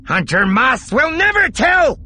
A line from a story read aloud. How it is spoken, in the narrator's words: the thief yelled